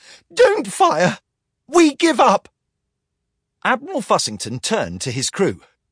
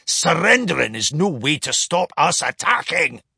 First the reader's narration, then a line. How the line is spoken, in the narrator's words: snarled Mr